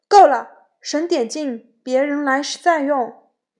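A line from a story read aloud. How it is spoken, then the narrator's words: Sharp stern shout. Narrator (Chinese): 他厉声喝道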